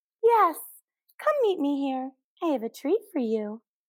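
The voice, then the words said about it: High-pitched childish falsetto voice. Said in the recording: “The exaggerated childish voice ... The falsetto ... The high-pitched voice”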